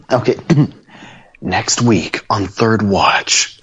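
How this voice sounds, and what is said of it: Dramatic TV promo announcer voice. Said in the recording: “this will look good on a promo, you know, next week on Third Watch ... you do that voice really well”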